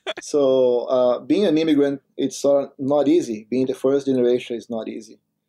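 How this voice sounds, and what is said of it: Foreign accent in English. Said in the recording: “I'm an immigrant myself, as you can notice by my accent.”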